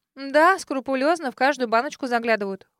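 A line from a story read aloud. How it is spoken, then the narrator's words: Snorted. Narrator (Russian): фыркнула Кейт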